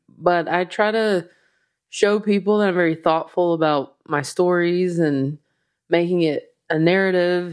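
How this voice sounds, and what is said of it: Slow Southern US accent. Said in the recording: “my slow Southern accent”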